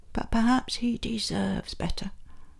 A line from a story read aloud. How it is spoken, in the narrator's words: a little voice deep inside you whispered